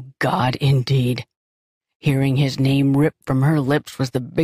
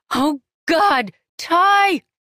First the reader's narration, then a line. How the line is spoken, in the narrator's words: she threw her head back and shouted